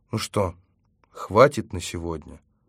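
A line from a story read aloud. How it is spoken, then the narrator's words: Gentle, affectionate question. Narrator (Russian): ласково спросил я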